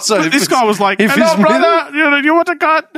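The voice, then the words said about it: Imitated Indian-sounding accent. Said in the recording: “You said it was Arabic. That's an Indian accent.”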